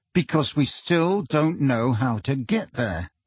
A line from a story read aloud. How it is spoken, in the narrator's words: said Harry through gritted teeth